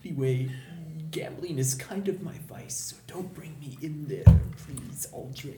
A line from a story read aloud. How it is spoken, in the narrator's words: just kind of whisper